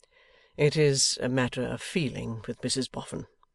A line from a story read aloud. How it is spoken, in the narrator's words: said Rokesmith gently